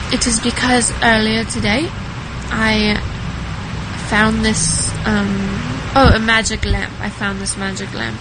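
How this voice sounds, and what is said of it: Pretty good British accent. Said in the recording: “she rocks it. It's a pretty good British accent, too ... the queen of the British voices”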